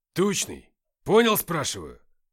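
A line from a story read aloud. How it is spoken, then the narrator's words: Barked over radio. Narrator (Russian): рявкнула рация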